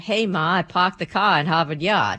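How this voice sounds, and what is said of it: Put-on Boston accent. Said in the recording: “your best Boston accent ... Just like that ... Well done.”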